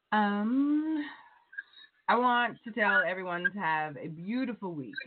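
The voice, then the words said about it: Put-on Valley Girl voice. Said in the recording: “in my Valley Girl voice.”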